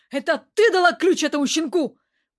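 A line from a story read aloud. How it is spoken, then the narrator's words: Shout. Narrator (Russian): Владимир закричал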